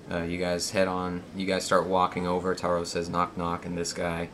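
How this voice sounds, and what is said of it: Raspy voice. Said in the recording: “my voice feels very raspy today”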